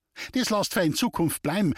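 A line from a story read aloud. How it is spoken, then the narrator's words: Calling after someone. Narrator (German): rief sie ihm hinterher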